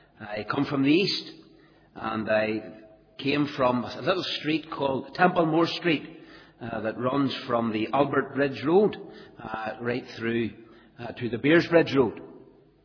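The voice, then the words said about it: East Belfast Northern Irish accent. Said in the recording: “I come from East Belfast. You know I'm not from Ballymena by my accent.”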